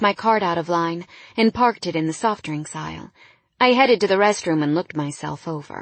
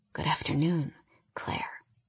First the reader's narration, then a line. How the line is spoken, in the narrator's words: he whispered against my neck